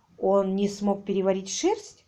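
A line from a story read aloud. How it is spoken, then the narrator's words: Plain. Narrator (Russian): спросила Коки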